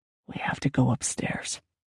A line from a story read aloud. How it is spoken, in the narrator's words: he whispered